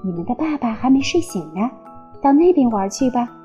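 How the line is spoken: Whispering. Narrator (Chinese): 她小声说

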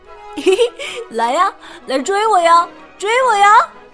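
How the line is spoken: Dog shouting. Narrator (Chinese): 一条看门狗…大喊

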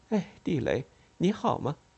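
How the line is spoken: Forced smile. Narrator (Chinese): 她强笑了一下，说

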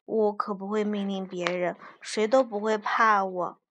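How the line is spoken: Mumbling. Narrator (Chinese): 菲尔也嘟囔着说

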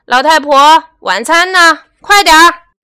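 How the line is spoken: Loud shouting. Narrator (Chinese): 朱先生 总是大声喊

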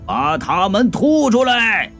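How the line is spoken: Shouting. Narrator (Chinese): 就叫

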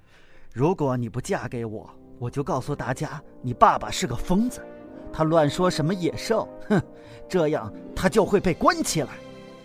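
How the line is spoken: Low, threatening. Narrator (Chinese): 加斯顿他低声威胁贝尔

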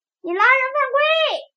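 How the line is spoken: Angry shout. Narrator (Chinese): 雨果生气地推着布鲁诺喊道

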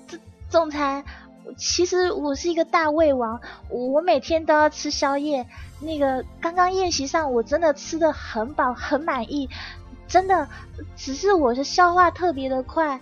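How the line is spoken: On the verge of tears. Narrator (Chinese): 珊珊欲哭无泪的说

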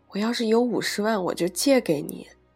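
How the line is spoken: Sighing. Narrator (Chinese): 我叹口气

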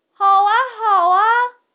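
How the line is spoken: Loud, excited shouting. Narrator (Chinese): 汤姆和乔治大声地喊着，他们也兴高采烈

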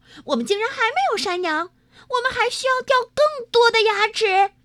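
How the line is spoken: Shouting. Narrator (Chinese): 劳拉叫道

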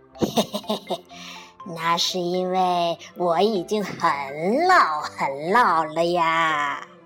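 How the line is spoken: Cheerful chuckle, old woman. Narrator (Chinese): 姑婆就笑嘻嘻地说

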